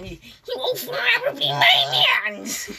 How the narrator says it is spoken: Robin screamed, continued to cackle

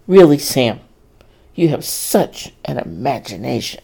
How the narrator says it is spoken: Dorrie scoffed

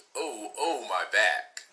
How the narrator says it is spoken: She groaned

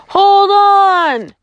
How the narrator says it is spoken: shouted

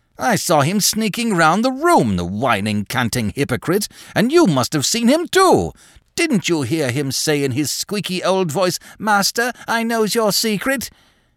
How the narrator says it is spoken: He broke off abruptly

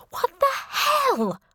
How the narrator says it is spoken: screamed

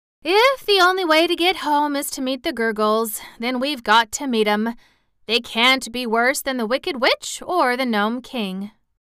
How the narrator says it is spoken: Dorothy said with a sigh

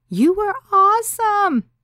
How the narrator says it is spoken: she said excitedly

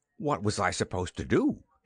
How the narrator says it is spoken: snapped

